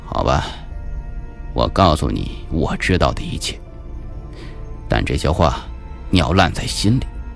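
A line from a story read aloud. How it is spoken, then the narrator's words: Sighing. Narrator (Chinese): 孙警官叹息了一声说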